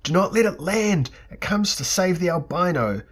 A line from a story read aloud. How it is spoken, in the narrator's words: screamed Theleb Ka'ana